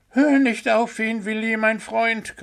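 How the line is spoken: Shrieking. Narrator (German): kreischte Pünktchen

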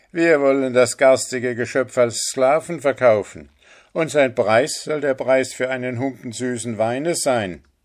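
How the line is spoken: Exclaimed laughing. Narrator (German): rief er lachend aus

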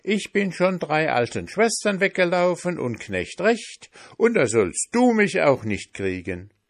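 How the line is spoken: Shouted. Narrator (German): rief der Pfannkuchen

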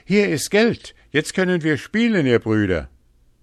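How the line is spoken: Called out to them. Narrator (German): rief er ihnen schon entgegen

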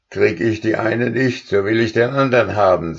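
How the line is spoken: Angry voice. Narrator (German): sagte er, und man konnte es seiner Stimme anhören, wie wütend er war

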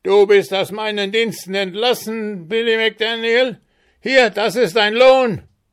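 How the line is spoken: Shrill furious screech. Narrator (German): Sein Gesicht glühte vor Wut und Enttäuschung, und mit schriller, kreischender Stimme, die wie ein geborstener Dudelsack klang, rief er

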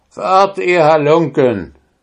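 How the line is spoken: Calling out. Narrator (German): rief zu

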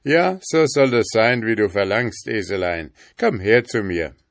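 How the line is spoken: Laughing, cheerful. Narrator (German): Der König lachte und sagte mit gutem Mut

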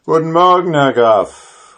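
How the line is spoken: Calling out to someone. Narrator (German): rief er ihm zu

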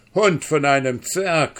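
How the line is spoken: Calling out. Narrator (German): rief

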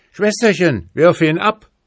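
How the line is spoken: Horse calling out. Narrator (German): rief aber der vierbeinige Schimmel dem dreibeinigen zu

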